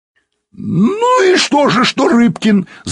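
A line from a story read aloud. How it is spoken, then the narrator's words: Shouting. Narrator (Russian): закричал Пучко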